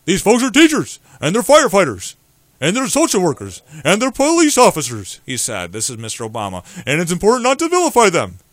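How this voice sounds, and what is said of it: Imitates another person's voice, cartoonish. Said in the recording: “Why does he sound like Barney from the Flintstones? ... my impersonation”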